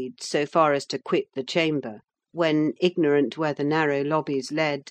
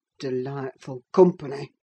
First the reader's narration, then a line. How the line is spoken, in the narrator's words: muttered Heathcliff